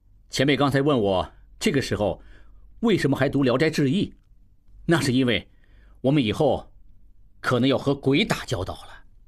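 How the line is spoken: Laughing. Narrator (Chinese): 应记这才回头看潘维言笑道

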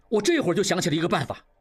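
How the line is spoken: Sudden exclamation. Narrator (Chinese): 王宗宇忽然叫起来

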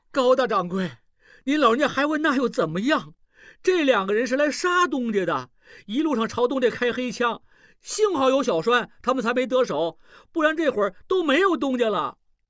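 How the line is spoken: Anxious loud yelling. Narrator (Chinese): 小栓急了，大声嚷嚷起来

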